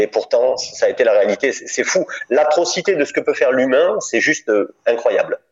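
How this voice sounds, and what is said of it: Slight southern French accent. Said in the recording (French): “on, sent qu'il y a un petit accent du sud ... il y a un petit accent forcément euh, qui reste”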